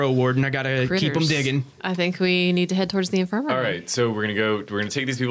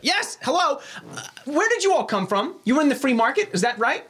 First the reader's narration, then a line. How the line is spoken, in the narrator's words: this other deep gnome, obviously named Fendrick, comes shouting up to you all, and he's like